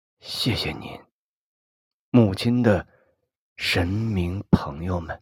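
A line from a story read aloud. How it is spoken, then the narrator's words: Murmuring. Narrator (Chinese): 喃喃的说着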